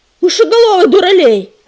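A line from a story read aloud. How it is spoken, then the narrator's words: Barked. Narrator (Russian): рявкнул он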